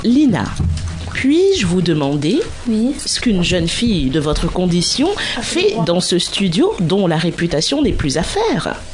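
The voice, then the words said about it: Put-on posh bourgeois French accent. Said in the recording (French): “j'ai fait un accent de bourgeois”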